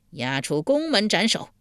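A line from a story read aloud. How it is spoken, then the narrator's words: Angry. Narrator (Chinese): 晋惠公一脸怒色道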